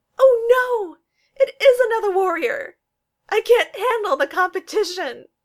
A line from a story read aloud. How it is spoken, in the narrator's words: giant sobs